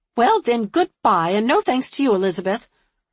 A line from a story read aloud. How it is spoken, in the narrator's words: retorted angrily